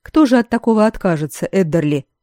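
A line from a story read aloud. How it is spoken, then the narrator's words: Snort. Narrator (Russian): хмыкнул Тимоти Севендиш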